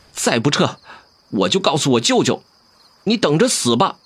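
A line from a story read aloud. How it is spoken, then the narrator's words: Youth, through gritted teeth. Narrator (Chinese): 少年 脸涨得通红，咬牙道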